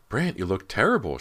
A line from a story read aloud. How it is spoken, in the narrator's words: she cried